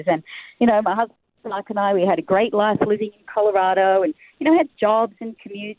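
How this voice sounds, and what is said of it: Australian accent. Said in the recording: “if you can't tell from the accent ... I'm Australian”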